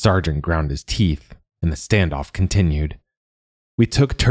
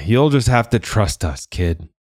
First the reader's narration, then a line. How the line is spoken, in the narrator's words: the sergeant sighed